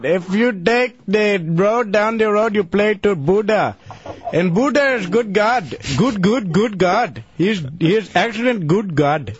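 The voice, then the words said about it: Put-on Indian accent. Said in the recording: “I can do India very well.”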